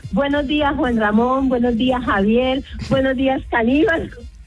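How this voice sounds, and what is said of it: Strong regional Spanish accent. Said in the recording (Spanish): “tengo un acento muy, muy característico de mi tierra”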